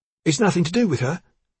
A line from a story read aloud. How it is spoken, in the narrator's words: he said hotly